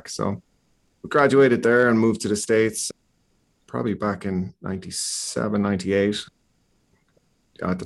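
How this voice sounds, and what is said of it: Irish accent. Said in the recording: “if you can't tell from the accent, grew up in Ireland”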